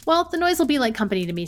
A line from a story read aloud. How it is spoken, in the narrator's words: said Leake